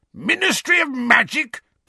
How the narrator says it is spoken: bellowed Uncle Vernon

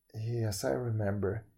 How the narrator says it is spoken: he answered sadly

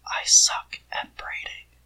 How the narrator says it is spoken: Shitty whispers

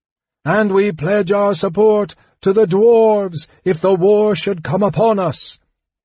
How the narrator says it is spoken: Elistan shouted

